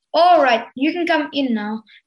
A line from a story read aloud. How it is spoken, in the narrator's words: Leon called out to his friends